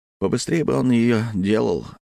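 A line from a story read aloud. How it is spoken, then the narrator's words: Heavy sigh. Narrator (Russian): тяжело вздохнул Липко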